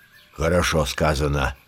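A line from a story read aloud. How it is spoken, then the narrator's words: Grumble. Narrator (Russian): проворчал Балу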